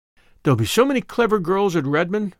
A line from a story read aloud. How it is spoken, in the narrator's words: sighed Diana